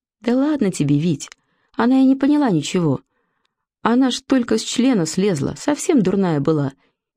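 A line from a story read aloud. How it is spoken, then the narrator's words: Woman giggling. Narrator (Russian): хихикнула женщина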